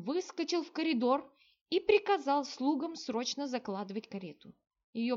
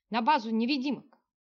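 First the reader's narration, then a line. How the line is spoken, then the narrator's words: Barked order. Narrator (Russian): рявкнул генерал кучеру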